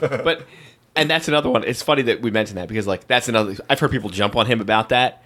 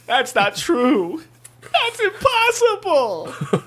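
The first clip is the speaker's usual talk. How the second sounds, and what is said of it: Whiny Luke Skywalker impression. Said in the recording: “Now we got a Luke Skywalker impersonation... it's more of just like a generic whining character”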